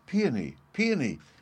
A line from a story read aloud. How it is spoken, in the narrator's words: cried Violet to her brother, who had gone to another part of the garden